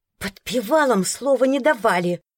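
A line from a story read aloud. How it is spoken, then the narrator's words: Hissing. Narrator (Russian): Прошипев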